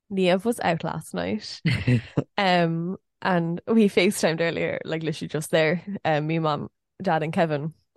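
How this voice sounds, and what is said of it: Voice sounds a bit deeper. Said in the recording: “Does my voice still sound kind of deep ... A little bit. ... your voice sounds a bit deeper”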